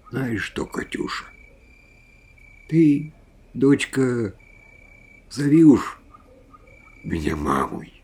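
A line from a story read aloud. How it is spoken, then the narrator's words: Quiet, tender voice. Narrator (Russian): Макаровна тихим голосом сказала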